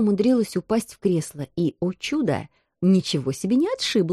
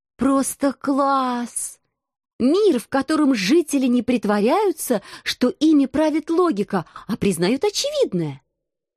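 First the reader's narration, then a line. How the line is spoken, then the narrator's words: Exclaimed. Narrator (Russian): Воскликнула я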